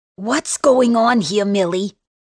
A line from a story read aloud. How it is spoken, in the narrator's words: Donna asks me in her thick Long Island accent